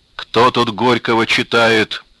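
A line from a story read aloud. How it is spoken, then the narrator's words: Menacing bass question. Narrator (Russian): Грозным басом спросил он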